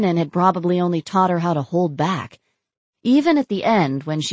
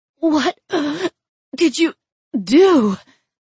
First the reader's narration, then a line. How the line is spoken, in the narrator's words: She gasped